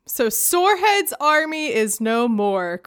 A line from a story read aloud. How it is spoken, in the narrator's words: cried Arrowroot